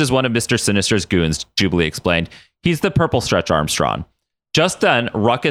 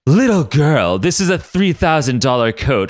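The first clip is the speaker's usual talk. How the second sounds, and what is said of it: Pretty-boy anime character voice. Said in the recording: “in his beautiful Bashonen voice.”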